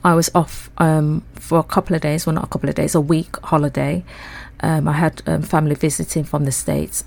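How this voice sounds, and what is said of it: Congested, blocked-up voice. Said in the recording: “my voice sounds a bit different... I caught a cold... I sound a bit blocked up”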